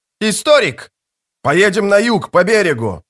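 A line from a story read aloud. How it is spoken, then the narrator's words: Yell. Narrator (Russian): заорал Дукер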